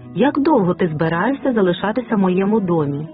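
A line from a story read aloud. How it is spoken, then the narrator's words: Sharp question. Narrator (Ukrainian): запитала її різким тоном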